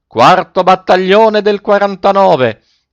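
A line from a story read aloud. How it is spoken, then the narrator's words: Frantic yell. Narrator (Italian): Coretti perdé la testa e urlò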